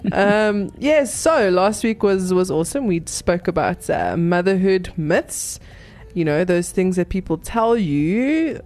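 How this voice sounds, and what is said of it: Sick, weird-sounding voice. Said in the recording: “I sound kind of weird. Got a little bit of flu flu.”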